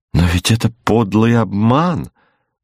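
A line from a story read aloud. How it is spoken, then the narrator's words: Exclaiming. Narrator (Russian): воскликнула она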